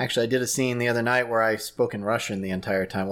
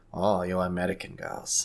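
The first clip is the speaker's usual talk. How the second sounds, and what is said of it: Put-on Russian accent. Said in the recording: “a Russian accent”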